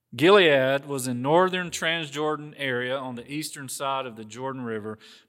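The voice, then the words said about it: Southern American accent. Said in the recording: “You sound Southern.”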